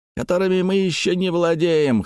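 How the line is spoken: Urge to shout. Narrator (Russian): хотелось крикнуть дядюшке Антиферу

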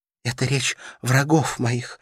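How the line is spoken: Restrained, trembling voice. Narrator (Russian): ответил он благоразумно сдерживая себя трепещущим голосом

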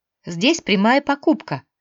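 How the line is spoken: Cheerful lively explanation. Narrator (Russian): радостно объясняла бойкая брюнетка

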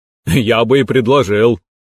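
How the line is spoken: Snort. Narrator (Russian): хмыкнул тренер Ло

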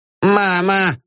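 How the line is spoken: Shout. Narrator (Russian): крикнул Ипполит Матвеевич, отлетая к стене

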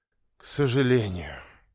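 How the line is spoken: Sighing. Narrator (Russian): вздохнула Алена Андреевна

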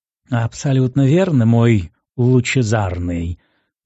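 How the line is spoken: Unctuous, honeyed voice. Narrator (Russian): елейным голосом откликнулся на мои мысли Искин

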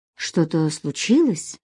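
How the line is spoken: Quiet question. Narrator (Russian): тихо спросил Владимир

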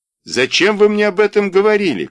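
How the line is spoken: Shout. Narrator (Russian): крикнул Игорь

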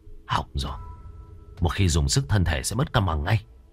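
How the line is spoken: Low quiet voice. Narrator (Vietnamese): anh gầy nhỏ giọng

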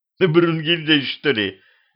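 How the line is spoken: Laughing again. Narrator (Russian): опять рассмеялся Петрович

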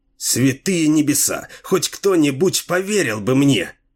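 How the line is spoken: Exclaimed. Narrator (Russian): воскликнул он

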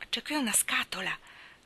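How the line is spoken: Whisper. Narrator (Italian): sussurrò Mr

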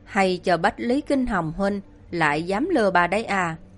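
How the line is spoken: Fierce hiss through teeth. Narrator (Vietnamese): cô nàng kia hung dữ nghiến răng rít ra từng chữ một

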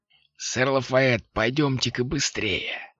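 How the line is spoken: Hissing voice. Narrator (Russian): прошипел голос

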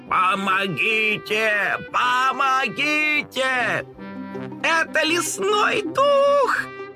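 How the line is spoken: Frightened kittens squealing. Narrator (Russian): завизжали испуганные котята

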